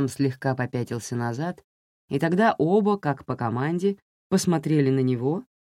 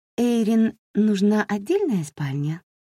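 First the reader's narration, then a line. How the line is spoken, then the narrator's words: Gentle question. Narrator (Russian): так же ласково спросила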